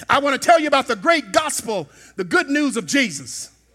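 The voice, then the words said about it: Mississippi Southern American accent. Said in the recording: “I'm from Mississippi. All of us talk like that down there. ... It's all the same accent.”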